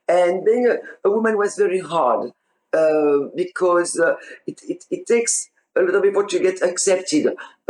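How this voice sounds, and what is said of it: Foreign accent. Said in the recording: “I've talked with a funny accent”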